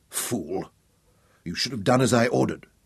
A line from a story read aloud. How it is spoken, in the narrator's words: she told him harshly